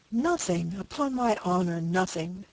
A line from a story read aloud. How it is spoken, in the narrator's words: cried the father